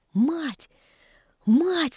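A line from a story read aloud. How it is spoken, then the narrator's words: Excited whisper. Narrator (Russian): взволнованно шептал Мишка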